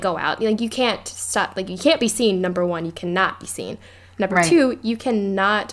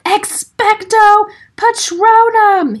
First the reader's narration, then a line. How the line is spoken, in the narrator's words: he yelled